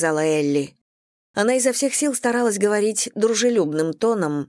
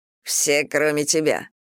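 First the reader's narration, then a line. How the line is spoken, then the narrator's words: Grumbling. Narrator (Russian): проворчал Стив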